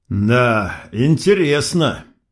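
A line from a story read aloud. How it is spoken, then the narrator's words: Forced out reluctantly. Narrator (Russian): выдавил я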